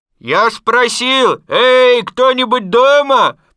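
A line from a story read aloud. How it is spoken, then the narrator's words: Very loud repetition. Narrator (Russian): повторил Пух громко-громко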